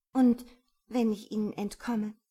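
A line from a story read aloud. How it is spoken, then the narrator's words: Plain question. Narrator (German): fragte sie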